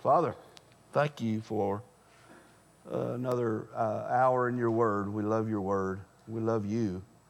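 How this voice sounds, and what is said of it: Strained, fading voice. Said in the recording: “I'm about to lose my voice anyway.”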